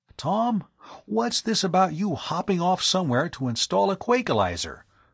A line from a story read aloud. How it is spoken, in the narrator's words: he asked anxiously